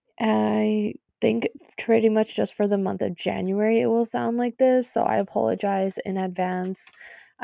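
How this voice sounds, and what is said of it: Congested voice with a cold. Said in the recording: “As you can tell, I have a cold ... the sound of my voice ... a bit of a sore throat and stuffy nose”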